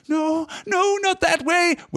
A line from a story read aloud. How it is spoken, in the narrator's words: wailed Smeagol